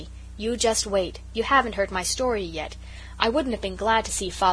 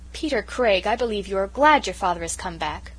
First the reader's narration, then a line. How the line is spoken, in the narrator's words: cried the Story Girl